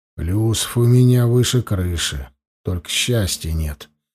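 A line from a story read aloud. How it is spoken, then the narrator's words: Grumbling. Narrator (Russian): проворчал посетитель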